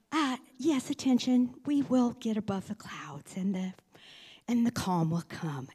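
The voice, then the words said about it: Lovely flight attendant voice. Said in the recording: “in that lovely stewardess voice”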